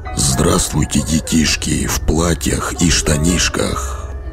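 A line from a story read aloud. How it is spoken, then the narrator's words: Muffled deep bass. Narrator (Russian): Глухим басом произнес Санта-Клаус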